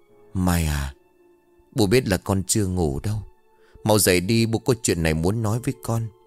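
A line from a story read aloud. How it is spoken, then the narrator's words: Soft trembling whisper. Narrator (Vietnamese): run rẩy vỗ nhẹ lên vai con rồi khẽ thì thào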